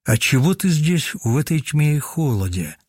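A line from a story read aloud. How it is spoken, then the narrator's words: Plain. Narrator (Russian): спросил дух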